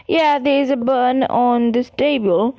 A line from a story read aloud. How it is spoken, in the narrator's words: said Ron